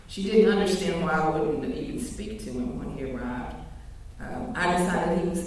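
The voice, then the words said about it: Rural Kentucky country accent. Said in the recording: “I'm from the country, if you can't tell by my voice, from rural Kentucky.”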